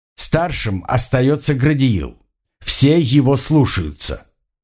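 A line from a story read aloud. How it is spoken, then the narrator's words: Stern. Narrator (Russian): строго сказал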